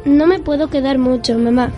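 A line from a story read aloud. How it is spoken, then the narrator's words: Plain. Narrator (Spanish): dijo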